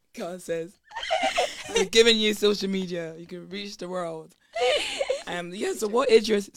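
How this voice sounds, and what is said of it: Strained voice giving out. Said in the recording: “Oh my gosh, my voice is going.”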